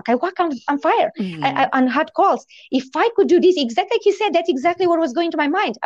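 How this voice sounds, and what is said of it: Immigrant's foreign accent in English. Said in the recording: “I will stop worrying about my accent. I will stop worrying about being an immigrant ... I don't remember that I have an accent”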